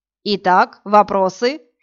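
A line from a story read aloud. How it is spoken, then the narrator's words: Mocking question. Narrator (Russian): насмешливо вопросил Элиот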